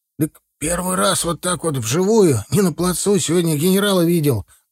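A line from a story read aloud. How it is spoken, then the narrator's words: Breathless exhale. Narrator (Russian): выдохнул тот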